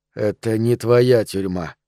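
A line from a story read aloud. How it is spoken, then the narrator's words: Louder mutter. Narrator (Russian): пробормотал я громче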